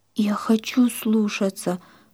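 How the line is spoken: Tearful whisper. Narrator (Russian): прошептала сквозь слезы Нина

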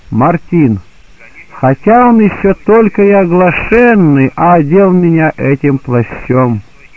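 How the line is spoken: Loud. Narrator (Russian): Христос громко сказал

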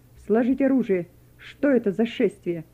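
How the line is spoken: Stern command. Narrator (Russian): один из них строго скомандовал

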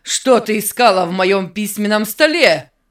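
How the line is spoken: Menacing shout. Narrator (Russian): Закричал он угрожающе

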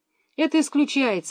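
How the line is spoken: Exclaimed. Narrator (Russian): воскликнула мама

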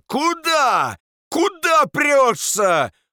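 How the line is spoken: Hoarse shouting. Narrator (Russian): охриплым голосом кричала она

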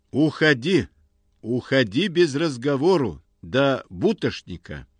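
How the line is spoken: Stern, rounded O accent. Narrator (Russian): поокивает он строго

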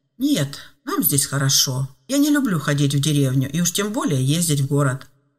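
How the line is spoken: Calm seasoned woodsman. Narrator (Russian): спокойно ответил бывалый таежник

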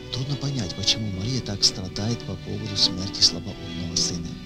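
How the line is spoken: Woman whispering. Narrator (Russian): одна из знакомых женщин шепотом сказала

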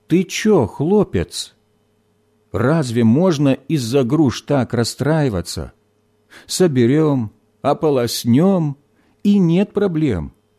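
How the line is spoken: Brisk reassuring tone. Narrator (Russian): бодрым тоном успокаивал сосед

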